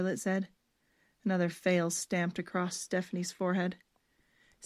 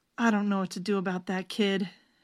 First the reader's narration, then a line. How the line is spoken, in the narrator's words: she moaned